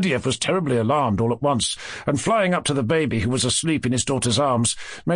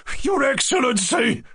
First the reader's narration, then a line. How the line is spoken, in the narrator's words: Lebediev cried with a sort of rush